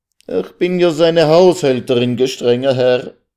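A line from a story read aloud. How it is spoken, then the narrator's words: Tearful, sobbing cry. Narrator (German): Unter Tränen und Schluchzen rief sie endlich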